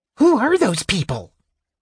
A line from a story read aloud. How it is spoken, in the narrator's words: The Kender asked in a shrill whisper